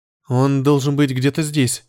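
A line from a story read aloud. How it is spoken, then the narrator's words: Uncertain young woman. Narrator (Russian): неуверенно указала девушка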